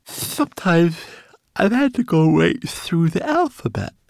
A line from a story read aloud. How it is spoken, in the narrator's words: remembered Twigleg sleepily